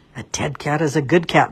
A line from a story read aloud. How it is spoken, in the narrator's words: the rabbit muttered